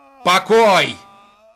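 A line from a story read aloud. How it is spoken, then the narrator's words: Irritated shout. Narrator (Russian): раздраженно выкрикнул Виноградов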